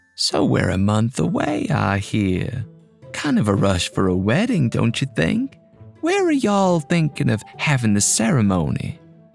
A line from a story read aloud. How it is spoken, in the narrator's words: Cal piped up